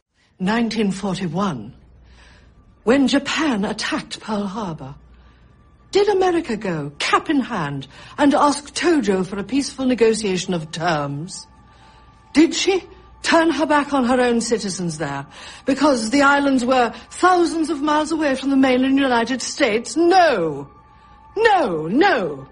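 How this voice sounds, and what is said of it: Margaret Thatcher impression, British accent. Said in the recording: “Meryl Streep ... her amazing turn as Iron Lady ... Maggie Thatcher ... an amazing, not only an accent, but an impersonation”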